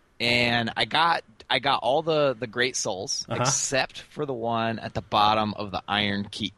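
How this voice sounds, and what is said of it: Hoarse, strained voice. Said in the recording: “losing my voice a little bit. I'm struggling here”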